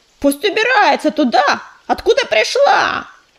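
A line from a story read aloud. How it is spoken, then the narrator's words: Yelling. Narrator (Russian): орал черный коготь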